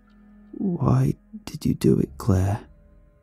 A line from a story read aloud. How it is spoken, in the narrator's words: asked softly